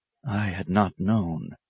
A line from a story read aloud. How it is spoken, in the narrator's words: he whispered